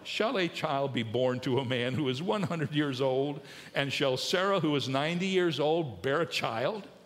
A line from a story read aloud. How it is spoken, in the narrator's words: Abraham laughed and said in his heart